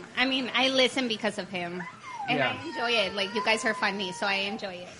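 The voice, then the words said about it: Mexican accent in English. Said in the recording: “She has an accent. ... she's from Mexico”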